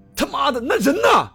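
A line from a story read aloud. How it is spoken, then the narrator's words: Roaring. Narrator (Chinese): 我见状，吼道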